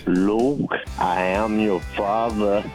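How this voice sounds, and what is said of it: Darth Vader voice impression. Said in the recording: “your Darth Vader impression? ... That sounded more like Garth Vader than Darth Vader.”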